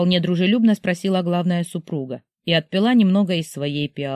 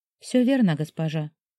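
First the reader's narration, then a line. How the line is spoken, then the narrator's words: Quiet reply. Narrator (Russian): тихо ответила Сяомин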